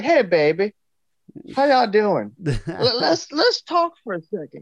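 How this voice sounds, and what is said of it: Put-on Southern gentleman accent. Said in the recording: “southern so gentleman funny. Accent. ... It's almost like you're from the South.”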